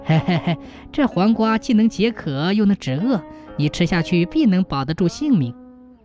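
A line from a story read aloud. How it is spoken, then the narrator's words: Laughing. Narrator (Chinese): 王继恩 笑着说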